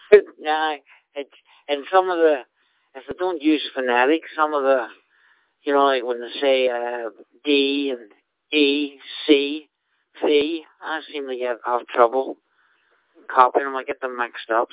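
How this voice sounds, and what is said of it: Northern Irish accent. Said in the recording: “you'll pick up my accent... I'm not Scottish by birth... I'm originally from Northern Ireland.”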